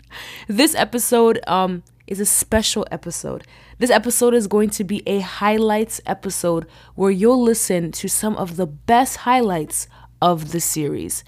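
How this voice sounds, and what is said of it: Voice sounds unwell, different than usual. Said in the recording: “my voice is sounding a little different. I'm not feeling the best”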